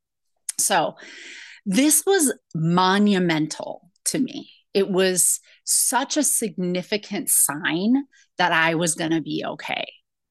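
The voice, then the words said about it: Teary, emotional voice. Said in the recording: “I'm getting teary even thinking about it.”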